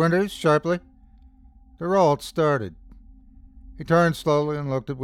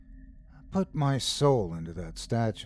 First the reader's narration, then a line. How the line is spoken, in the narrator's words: murmured softly